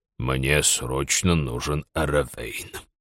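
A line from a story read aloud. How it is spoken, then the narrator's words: Hoarse rasp. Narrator (Russian): прохрипел Форс через несколько мгновений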